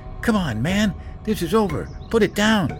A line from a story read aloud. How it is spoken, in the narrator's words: He pleaded